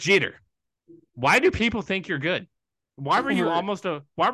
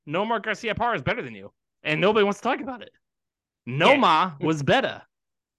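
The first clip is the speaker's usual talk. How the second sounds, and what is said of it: Put-on Boston accent. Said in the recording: “in my uh in my Boston accent here”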